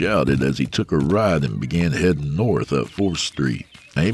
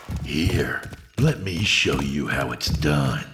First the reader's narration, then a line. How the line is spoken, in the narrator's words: the voice said in a malevolent hiss